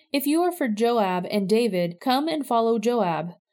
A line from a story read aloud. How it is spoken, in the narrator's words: One of Joab's young men shouted to Amishai's troops